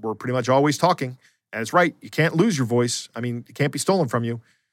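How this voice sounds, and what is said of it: Slightly gravelly older voice. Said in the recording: “my voice has changed as I age. ... It's getting a little more gravelly lately.”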